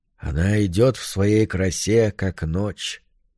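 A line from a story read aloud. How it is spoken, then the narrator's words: Quiet. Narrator (Russian): произнес он тихо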